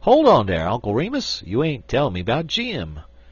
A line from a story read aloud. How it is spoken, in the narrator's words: exclaimed the Jonesboro Negro